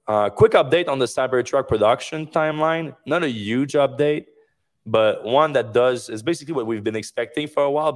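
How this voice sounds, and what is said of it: Hoarse, strained voice from illness. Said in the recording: “losing my voice a little bit. I've been sick this week ... my voice is the last thing to go”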